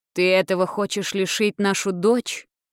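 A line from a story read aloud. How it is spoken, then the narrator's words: Stern, angry, sudden, male. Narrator (Russian): строго и сердито заявил вдруг он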